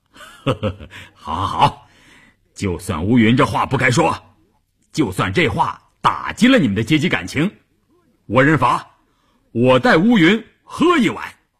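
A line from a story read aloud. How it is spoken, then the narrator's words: Jovial, laughing. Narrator (Chinese): 关山林笑呵呵地说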